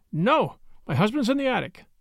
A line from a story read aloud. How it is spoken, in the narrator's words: In her fright, she blurted out